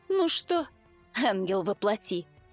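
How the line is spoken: Wry snort. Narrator (Russian): хмыкнул он

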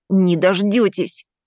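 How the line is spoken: Boy hissing. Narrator (Russian): прошипел мальчик

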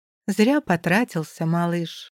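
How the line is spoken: Weary. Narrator (Russian): заявляю устало

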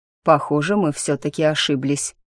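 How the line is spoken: Gloomy pleasant male voice overhead. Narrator (Russian): мрачно констатировал над моей головой приятный мужской голос

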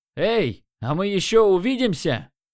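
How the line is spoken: Shout. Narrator (Russian): крикнул я

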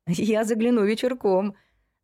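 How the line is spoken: Laughing. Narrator (Russian): засмеялся Стас

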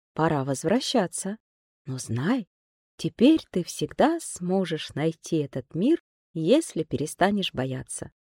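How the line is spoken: Quiet. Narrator (Russian): клубочек тихо сказал

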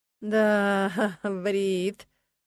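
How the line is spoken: Drawn-out drawl. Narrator (Russian): протянула Джесс

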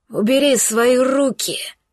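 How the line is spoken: Hateful snarl. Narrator (Russian): Больше уже рычал, чем говорил под гнетом ненависти

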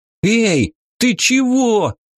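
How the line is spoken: Howling in pain. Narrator (Russian): Схватившись за скулу, взвыл этот кретин

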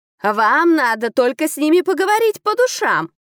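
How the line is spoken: Shouted from a tree. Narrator (Russian): крикнул мужик с дерева

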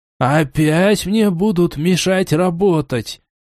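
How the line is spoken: Heavy resigned sigh. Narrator (Russian): Тяжело и обреченно вздохнул ученый

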